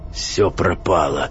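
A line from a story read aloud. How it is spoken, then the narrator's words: Hoarse wheeze. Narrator (Russian): прохрипел он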